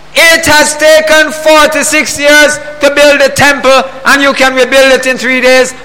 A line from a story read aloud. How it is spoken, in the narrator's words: They exclaimed